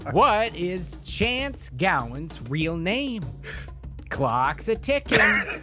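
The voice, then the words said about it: Game show host voice. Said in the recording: “that's just some game show voice”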